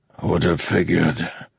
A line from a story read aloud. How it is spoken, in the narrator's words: the king said between wheezes